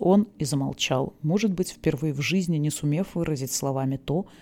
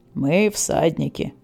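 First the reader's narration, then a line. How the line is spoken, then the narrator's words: Solemn declaration. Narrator (Russian): торжественно произнес Тон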